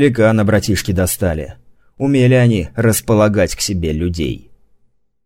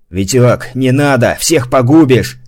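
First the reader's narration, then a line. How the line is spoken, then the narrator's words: Shouted. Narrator (Russian): крикнул ему Гурбан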